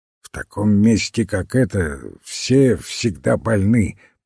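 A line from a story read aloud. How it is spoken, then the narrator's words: Grumbling. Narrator (Russian): пробурчал доктор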